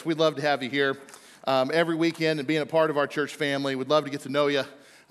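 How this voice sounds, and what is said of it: Out of breath, breathy speech. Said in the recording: “I'm out of breath.”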